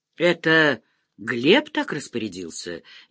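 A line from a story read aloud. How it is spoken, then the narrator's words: Uncertain question. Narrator (Russian): неуверенно спросил Тучков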